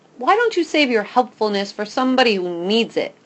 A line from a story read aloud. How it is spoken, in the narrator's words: I shout